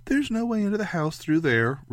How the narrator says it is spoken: Ray said brightly

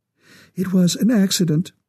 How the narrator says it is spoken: her voice trembled

